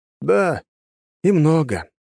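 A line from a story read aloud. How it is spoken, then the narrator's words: Sighing. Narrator (Russian): вздохнул я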